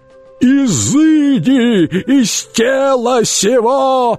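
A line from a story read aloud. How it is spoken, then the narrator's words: Screaming. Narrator (Russian): завопил Шарлей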